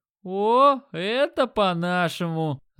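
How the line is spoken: Delighted. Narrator (Russian): Обрадовался Димон

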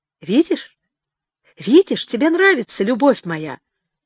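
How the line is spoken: Excited question. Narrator (Russian): взволнованно спрашивал он

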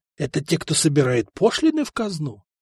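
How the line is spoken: Stunned whisper. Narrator (Russian): прошептал ошеломленный

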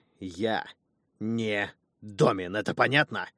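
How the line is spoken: Growling in face. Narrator (Russian): Я в буквальном смысле прорычал это в лицо женщины

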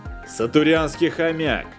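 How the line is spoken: Ranger's shout. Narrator (Russian): крикнул рейнджер Карл

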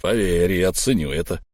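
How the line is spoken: Through gritted teeth. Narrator (Russian): процедил Буран

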